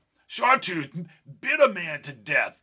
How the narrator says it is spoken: shouted Albie

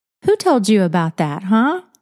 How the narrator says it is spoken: Larkin said playfully

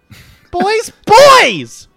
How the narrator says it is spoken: Olive Oil yelled

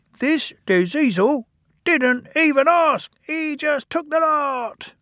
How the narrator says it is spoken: both squeaked indignantly

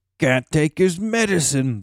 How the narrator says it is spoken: they jeered

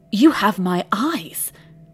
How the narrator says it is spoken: the brother gasped

